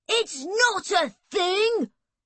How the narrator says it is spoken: Erg said angrily

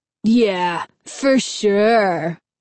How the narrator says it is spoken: Fred replied sarcastically

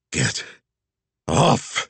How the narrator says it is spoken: she growled

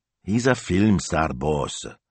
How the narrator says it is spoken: mumbled Smilzo

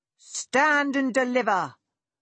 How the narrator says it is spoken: she heard someone shout

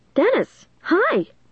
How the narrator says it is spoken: I called eagerly

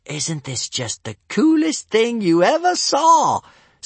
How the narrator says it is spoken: sang Kamikaze, excitedly

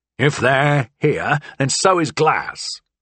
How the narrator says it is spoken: Pinky said, grunting as he made a pained lunge

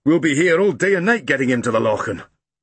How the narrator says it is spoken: growled Grumble

